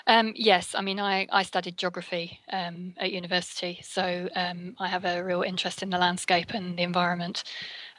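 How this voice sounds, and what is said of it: English accent, slightly faded. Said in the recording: “There's a English accent there? ... It's probably a little bit mangled by now. ... the UK accent.”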